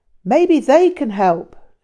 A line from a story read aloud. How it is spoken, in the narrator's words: called out